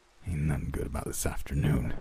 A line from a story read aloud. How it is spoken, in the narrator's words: he hissed back